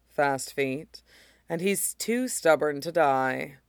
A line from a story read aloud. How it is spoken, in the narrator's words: the ghost said dryly